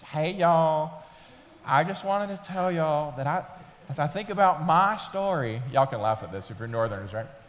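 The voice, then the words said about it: Put-on Southern US accent. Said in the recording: “She's from Mississippi, so she talked very southern then. ... I'll go back to my normal voice.”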